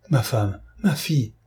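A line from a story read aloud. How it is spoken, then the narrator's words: Startled exclamation. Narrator (French): s'écria Cloarec en tressaillant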